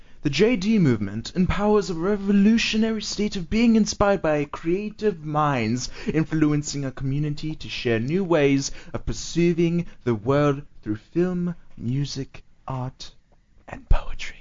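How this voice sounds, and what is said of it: Put-on British accent. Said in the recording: “If you read it in a British accent. ... In a British accent.”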